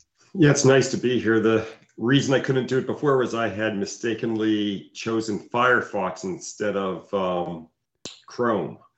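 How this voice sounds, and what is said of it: Sick voice from a cold. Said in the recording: “I'm still a little bit under the weather, so I apologize for my voice... You sound like something's happening over there... I just got the common cold”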